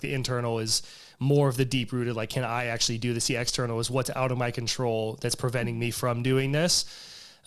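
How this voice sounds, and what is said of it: Voice with a slight cold. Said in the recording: “I have a little bit of a cold,”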